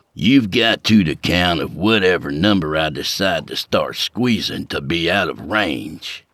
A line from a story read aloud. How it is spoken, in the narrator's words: Skeeter snarled